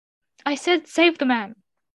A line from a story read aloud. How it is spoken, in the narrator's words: the prince cried out again